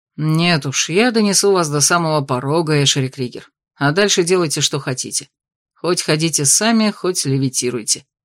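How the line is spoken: Grumbling. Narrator (Russian): проворчал Итан

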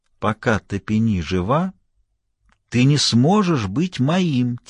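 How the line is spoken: Quiet panther voice. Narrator (Russian): тихо сказала пантера

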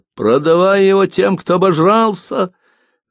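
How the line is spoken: Old woman shouting. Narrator (Russian): В толпе старуха закричала

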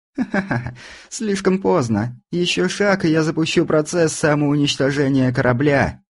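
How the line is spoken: Laughing. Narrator (Russian): рассмеялась Алиса

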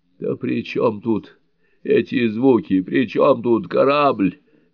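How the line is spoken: Groaning. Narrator (Russian): застонал Роузен

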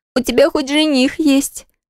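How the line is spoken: Moaning. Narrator (Russian): продолжала стонать сестра

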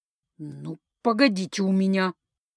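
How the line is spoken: Angry hiss through teeth. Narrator (Russian): зло прошипела она сквозь зубы

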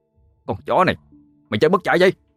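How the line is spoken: Shout. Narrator (Vietnamese): hét lên

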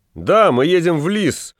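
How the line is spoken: Shouting. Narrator (Russian): закричал толстяк

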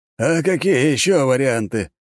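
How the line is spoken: Snort from behind. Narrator (Russian): хмыкнул из-за его спины как-то незаметно подкравшийся лажон

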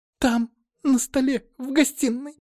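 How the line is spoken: Frightened maid's squeak. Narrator (Russian): пропищала служанка, сжавшись от страха

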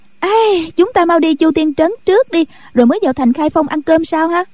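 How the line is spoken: Cheerful exclamation. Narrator (Vietnamese): Cô reo lên

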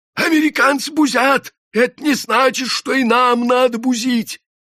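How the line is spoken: Hoarse shouting. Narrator (Russian): кричал он осипшим голосом

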